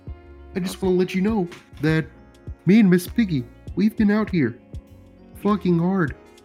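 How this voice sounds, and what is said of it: Kermit the Frog character voice. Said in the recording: “can you be doing different voices? the Frog here.”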